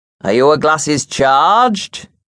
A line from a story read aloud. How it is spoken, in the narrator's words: boomed, being a big mason